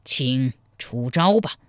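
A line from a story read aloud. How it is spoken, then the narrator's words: Deep, low voice. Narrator (Chinese): 洪大沉声说道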